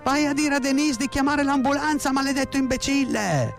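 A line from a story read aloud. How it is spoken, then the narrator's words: Frantic screaming. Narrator (Italian): Mia madre urlava come una matta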